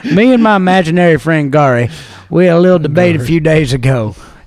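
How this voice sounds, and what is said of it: Put-on southern US accent. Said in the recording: “He has a very southern accent, and I'm not gonna go into it or do my interpretation. Yeah, I am.”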